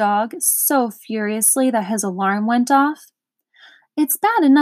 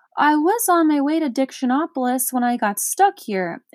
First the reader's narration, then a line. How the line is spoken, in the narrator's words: exclaimed Milo